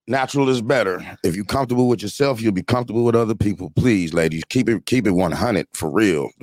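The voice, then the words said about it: Radio-style broadcast voice. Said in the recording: “you got radio voice”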